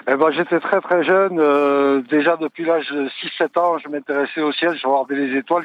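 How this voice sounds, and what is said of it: Provençal Marseille French accent. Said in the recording (French): “vous l'avez peut-être deviné à mon accent, je suis de Provence et de Marseille en particulier”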